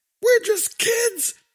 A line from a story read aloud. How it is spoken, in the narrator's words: screamed back